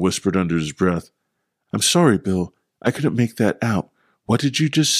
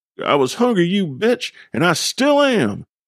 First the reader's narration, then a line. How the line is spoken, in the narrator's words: Bill exclaimed, overpowering Mac and Duffy